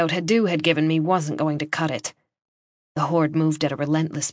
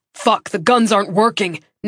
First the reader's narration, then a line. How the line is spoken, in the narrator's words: Nick roared